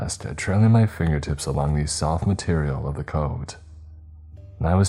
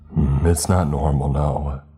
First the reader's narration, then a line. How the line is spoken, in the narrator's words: he chuckled